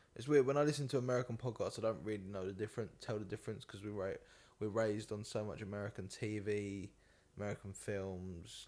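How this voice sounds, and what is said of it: British accent. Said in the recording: “I'm from the UK, obviously, if you can't tell by the accent. I'm sure the Americans can tell straight away.”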